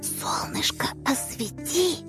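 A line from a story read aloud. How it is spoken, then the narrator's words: Girl's loud whisper. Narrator (Russian): Начала подсказывать девочка громким шепотом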